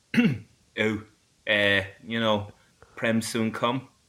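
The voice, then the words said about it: Weak impression, own accent. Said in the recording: “do an impression of Prem soon come ... That was just in your accent.”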